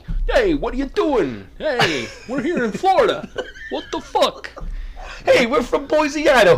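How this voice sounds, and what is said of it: Put-on New Jersey jock accent. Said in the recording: “they talk like this. They're like, hey, we're from New Jersey ... jocks are from New Jersey or Brooklyn ... New Jersey is a very different accent from Brooklyn ... you all sound the same”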